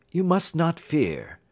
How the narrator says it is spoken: said he, soothingly

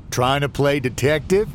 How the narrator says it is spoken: Floyd chuckled

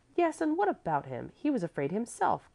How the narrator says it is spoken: Clevi cried out excitedly, for the reproach had stung her

